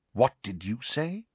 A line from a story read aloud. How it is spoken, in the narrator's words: Snape asked quietly